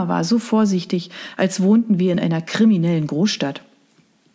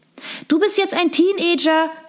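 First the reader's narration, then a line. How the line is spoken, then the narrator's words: Tinkling bell-like call. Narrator (German): rief sie mit ihrer Stimme, die wie das Klingeln winziger Glocken klang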